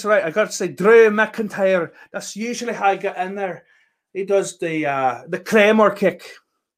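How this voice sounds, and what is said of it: Attempted Scottish accent, sounds Irish. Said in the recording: “do a Scottish accent. ... I don't know if that's good or not. It probably is more Irish than Scottish”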